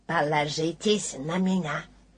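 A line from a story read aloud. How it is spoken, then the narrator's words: Whispered behind paw. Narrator (Russian): кролик, прикрыв рот лапкой, шепнул Пуху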